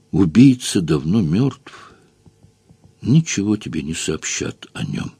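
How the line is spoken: Quiet, nasal voice. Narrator (Russian): Эйнгольц покрутил головой, будто его душил воротник рубахи, погудел носом, сказал негромко, отвернувшись от меня

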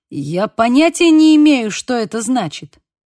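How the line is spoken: Confident voice. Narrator (Russian): сказал Бейл уверенным голосом

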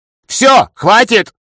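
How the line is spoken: Sudden sharp loud bark. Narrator (Russian): неожиданно резко и громко рявкнул Щупло Черновский

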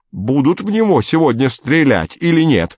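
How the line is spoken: Strained yell. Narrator (Russian): заорал Фокин натужным голосом

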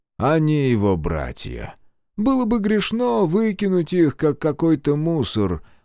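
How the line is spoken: Gloomy. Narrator (Russian): мрачно ответил Каннингем

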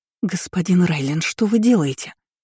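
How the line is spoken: Terrified whisper. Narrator (Russian): в ужасе прошептала я

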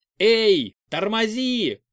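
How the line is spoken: Shouted. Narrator (Russian): крикнул

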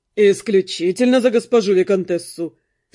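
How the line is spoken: Mocking assurance. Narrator (Russian): столь же насмешливо заверил ее граф

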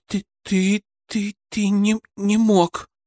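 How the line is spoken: Stammering whisper. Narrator (Russian): заикаясь, прошептала она

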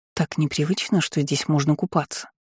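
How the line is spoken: Muttering. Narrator (Russian): пробормотала

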